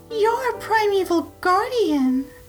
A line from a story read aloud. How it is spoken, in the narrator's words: exclaimed Ivana